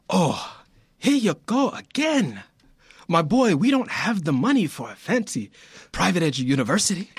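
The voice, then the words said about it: Failed Italian accent, sounds Nigerian. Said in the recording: “Every time he does this voice, I'm like, it's Forrest Whitaker's in the room ... I'm trying to do this accent, dude, and I sound like I'm Nigerian, not Italian. The phonetics of it just genetically is not working for me”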